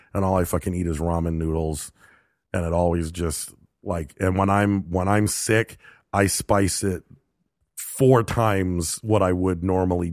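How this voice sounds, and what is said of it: Sick, congested-sounding voice. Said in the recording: “as you can tell from my voice, I'm recovering from a cold”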